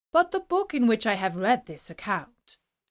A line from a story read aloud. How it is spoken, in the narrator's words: said the emperor